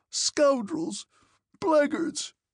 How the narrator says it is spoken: shrieked the old man

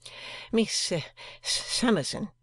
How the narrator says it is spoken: stammered Mr

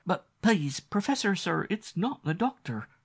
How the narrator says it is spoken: the maid faltered

